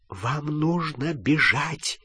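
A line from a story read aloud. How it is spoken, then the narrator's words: Whispered. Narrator (Russian): прошептала профессор МакГонагал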